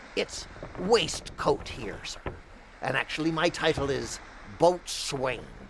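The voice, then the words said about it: West Country English accent. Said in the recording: “to my ear, I'm hearing West Country accent.”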